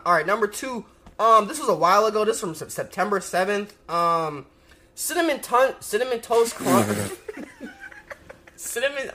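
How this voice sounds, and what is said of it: Talking very fast. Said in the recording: “I'm talking too fast. ... I gotta slow down.”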